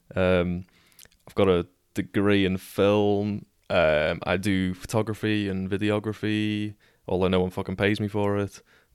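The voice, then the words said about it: Scouse Liverpool accent. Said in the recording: “As you can probably tell from the accent, I am a cheeky little scouser. ... from Liverpool”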